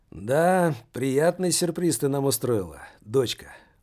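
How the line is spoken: Tired. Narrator (Russian): устало произнес он

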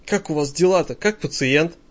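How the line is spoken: Whispered question. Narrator (Russian): спрашиваю шепотом Валентину

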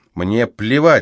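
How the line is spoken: Barked. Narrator (Russian): рявкнул Кейтлин

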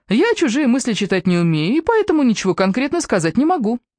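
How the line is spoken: Cheerful reply. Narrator (Russian): бодро отреагировала Эбби

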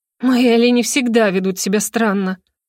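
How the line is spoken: Gloomy remark. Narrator (Russian): мрачно заметила я

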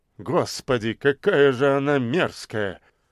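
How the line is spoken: Old man, through teeth. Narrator (Russian): Процедил седобородый профессор Каратаев

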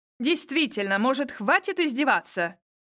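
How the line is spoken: Angry retort. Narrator (Russian): зло парировало в ответ

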